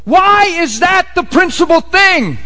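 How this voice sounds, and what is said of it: Raised, loud voice. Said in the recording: “I'm raising my voice on a purpose”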